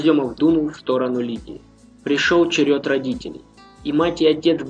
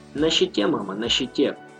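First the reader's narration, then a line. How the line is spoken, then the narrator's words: Quiet. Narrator (Russian): тихо произнес Влад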